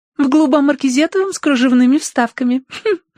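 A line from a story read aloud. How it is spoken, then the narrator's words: Giggling. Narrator (Russian): ответила Роза, хихикнув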